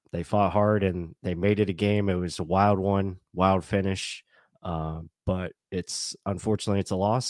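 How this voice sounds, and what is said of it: Weak, strained tired voice. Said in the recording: “my voice is, a little weak ... I gave it everything ... your voice sounds terrible”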